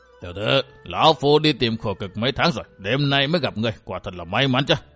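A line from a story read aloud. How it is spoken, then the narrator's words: Old man, hoarse ghostly voice. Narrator (Vietnamese): lão quái nhân áo đỏ bịt mặt cất giọng khàn khàn như quỷ mũi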